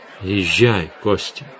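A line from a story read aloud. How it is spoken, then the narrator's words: Gentle. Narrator (Russian): ласково сказал Завулон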